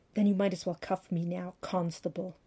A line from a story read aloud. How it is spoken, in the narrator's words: she hissed